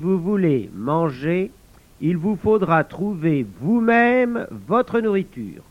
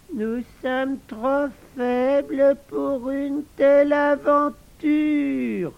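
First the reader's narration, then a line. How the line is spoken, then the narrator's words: Groaned. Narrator (French): gémit Razibus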